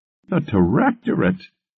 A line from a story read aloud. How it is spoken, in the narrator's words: Eleanor laughed